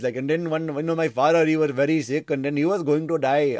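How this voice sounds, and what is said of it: Put-on Indian accent. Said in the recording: “So I can do an Indian accent now”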